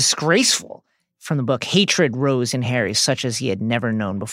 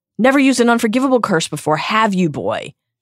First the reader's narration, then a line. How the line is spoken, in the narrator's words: She yelled